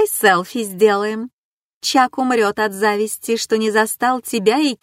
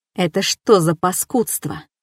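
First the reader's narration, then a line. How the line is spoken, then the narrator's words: Hiss. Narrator (Russian): прошипел Рук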